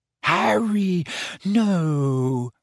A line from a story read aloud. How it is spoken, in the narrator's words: moaned Hermione